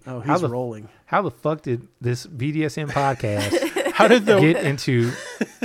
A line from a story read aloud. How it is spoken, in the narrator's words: I am silently chuckling, thinking